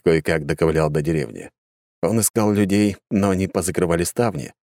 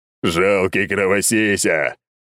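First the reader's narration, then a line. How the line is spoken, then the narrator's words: Guffawing. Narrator (Russian): хохотал Чал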